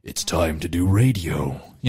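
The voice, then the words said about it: Deep, bassy radio announcer voice. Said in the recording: “the radio voice ... You know, it'd have to be like real deep and bassy, lots of resonance, lots of timbre.”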